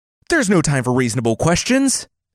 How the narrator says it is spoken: shouted

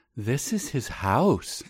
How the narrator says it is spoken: Danny says gently, as if talking to a child

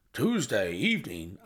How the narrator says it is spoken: I exclaimed

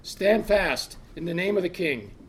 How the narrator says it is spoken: a voice from up ahead and to his left called loudly

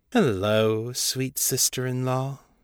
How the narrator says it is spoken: Ball purred

